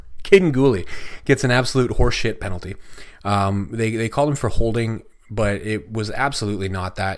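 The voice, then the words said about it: Strained, hoarse, fading voice. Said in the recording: “I'm losing my voice again as I do this ... I'm losing my voice.”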